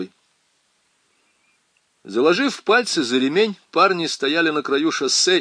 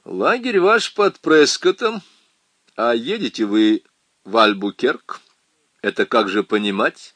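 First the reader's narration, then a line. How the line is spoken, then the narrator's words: Plain. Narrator (Russian): спросил один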